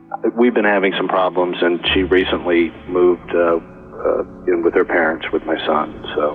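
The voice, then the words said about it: Sad, downcast voice. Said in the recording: “do you sound sad ... that's why you sound so sad.”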